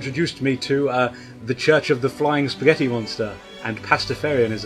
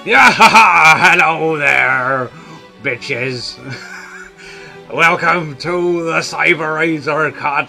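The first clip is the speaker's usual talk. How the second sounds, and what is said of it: Put-on pirate voice. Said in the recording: “I'm not going to continue this for the entire show ... Talk Like a Pirate Day”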